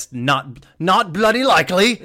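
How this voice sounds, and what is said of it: Put-on British Cockney accent. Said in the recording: “our best British not bloody likely ... Our best Cockney accent? ... I thought mine was okay”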